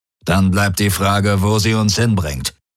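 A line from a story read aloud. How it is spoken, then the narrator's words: Growled. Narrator (German): knurrte Darajos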